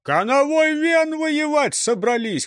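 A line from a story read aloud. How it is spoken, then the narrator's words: Shout from behind. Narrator (Russian): крикнули сзади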